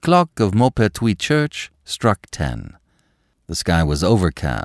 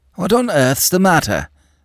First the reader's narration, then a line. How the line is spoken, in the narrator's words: exclaimed the doctor